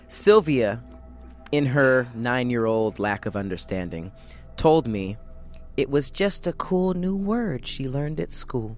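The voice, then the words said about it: Storytelling in a put-on accent. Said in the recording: “I can't even focus on your story because of the accent. ... I'm doing character work.”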